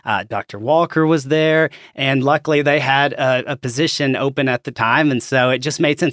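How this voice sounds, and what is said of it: Arkansas accent. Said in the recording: “As you can probably tell from my accent, I'm from Arkansas”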